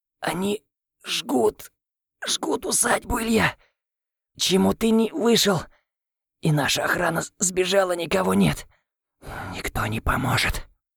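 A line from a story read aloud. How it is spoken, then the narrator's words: Wheezing through violent coughing. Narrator (Russian): в сильном приступе кашля Виктор прохрипел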